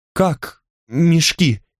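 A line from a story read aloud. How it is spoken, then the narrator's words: Trembling question. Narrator (Russian): спросил Михар дрожащим голосом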